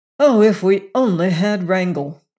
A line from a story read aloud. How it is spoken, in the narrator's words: exclaimed Venter's